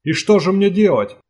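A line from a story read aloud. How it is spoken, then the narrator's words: Monstrous scream. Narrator (Russian): закричал дезертир монстром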